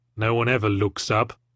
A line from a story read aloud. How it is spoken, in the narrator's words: I muttered